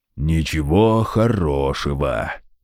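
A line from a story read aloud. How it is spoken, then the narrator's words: Low booming drone. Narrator (Russian): прогудел Гундахар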